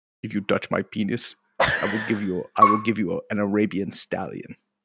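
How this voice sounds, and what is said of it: Put-on South African accent. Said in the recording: “do the South African accent”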